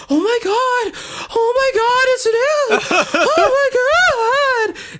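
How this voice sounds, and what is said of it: Squealing panicked imitation of another person. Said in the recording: “So like literally, that's the noise. He sounded like a little bitch getting his nipples tussled with”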